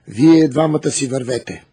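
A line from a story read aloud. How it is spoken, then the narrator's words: King commanding. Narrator (Bulgarian): заповядал царът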